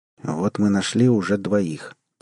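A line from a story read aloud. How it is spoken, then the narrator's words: Quiet. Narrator (Russian): тихо сказал капитан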